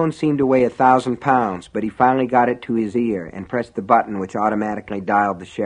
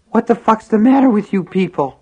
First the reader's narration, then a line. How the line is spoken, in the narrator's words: Henry gasped raggedly